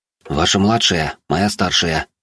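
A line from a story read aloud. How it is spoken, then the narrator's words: Whispering to comrades. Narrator (Russian): прошептал я своим соратникам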